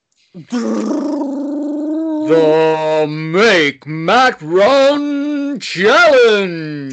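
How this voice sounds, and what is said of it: X Factor announcer-style voice. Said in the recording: “do the voice. ... Cue my inner X Factor voice.”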